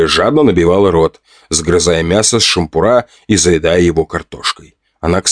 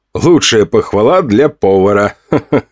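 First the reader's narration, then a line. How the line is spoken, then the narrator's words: Laughing. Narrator (Russian): Засмеялся я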